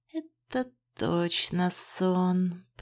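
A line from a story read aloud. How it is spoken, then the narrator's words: Muttered. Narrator (Russian): пробормотала я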